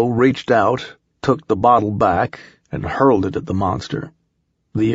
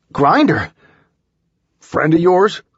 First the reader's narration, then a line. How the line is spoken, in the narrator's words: Milo exclaimed